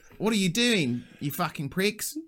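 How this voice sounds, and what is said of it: Put-on heavy New Zealand accent. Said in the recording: “Good impression ... you leaned heavily into New Zealand then, didn't you?”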